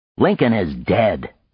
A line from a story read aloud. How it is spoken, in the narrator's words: Frank snapped